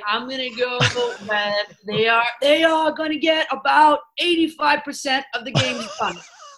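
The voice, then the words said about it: Imitates another person's voice. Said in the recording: “let me channel my inner Dr. Fauci ... She got the impersonation”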